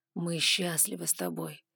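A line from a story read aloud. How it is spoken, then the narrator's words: Dragon's slightly muffled voice. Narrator (Russian): голос ледяного дракона прозвучал немного глухо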